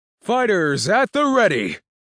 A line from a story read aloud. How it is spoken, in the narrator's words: the announcer shouted